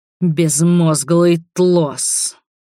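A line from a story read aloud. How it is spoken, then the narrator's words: Man muttering through teeth. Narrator (Russian): процедил мужчина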